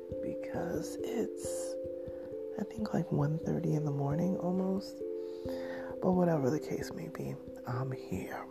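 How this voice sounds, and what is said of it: Whispering, soft ASMR-like voice. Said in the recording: “I'm whispering ... it's kind of a little ASMR-ish”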